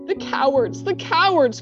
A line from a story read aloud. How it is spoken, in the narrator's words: cried Susan